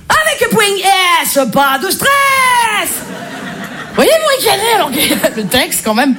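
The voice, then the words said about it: Marseille French accent. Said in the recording (French): “Je m'y connais en accent, je suis marseillaise ... l'accent marseillais”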